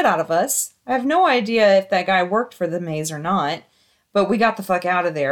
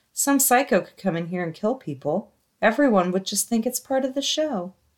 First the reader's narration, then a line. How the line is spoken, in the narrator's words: Really calmly, he looked at both of us and said